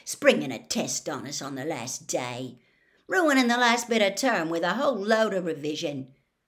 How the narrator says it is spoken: Ron said bitterly

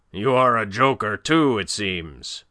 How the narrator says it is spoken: roared the other

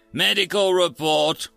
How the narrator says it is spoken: she snapped

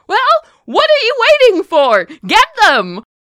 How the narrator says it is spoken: he had yelled at you from across the way

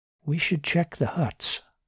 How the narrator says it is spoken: Martin whispered

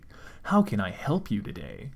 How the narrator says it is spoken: Cold Steel scoffed

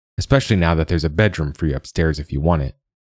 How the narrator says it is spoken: the wizard replied sharply

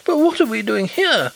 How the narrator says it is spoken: exclaimed Hollyer, pale and horrified

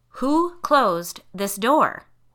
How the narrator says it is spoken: she repeated, this time slowly and deliberately

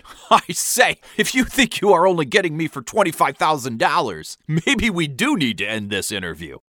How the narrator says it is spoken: a fake loud laugh and answered

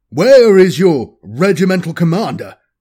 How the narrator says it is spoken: he snapped

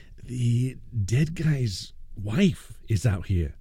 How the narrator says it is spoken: murmured

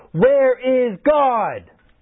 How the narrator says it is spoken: The boy screamed

